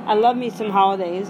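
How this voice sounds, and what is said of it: Put-on southern US accent. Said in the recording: “I can't not talk with a southern accent.”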